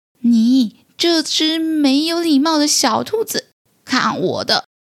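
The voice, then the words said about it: Thin, small character voice. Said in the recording (Chinese): “听到一个细细的声音说”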